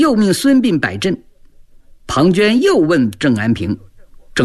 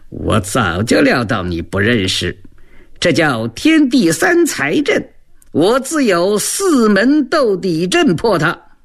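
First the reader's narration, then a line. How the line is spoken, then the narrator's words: Cold sneering laugh. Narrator (Chinese): 庞涓嘿嘿冷笑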